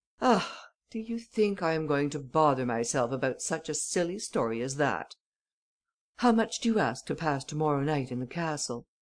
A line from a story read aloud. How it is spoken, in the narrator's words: Ganimard exclaimed, in a tone of impatience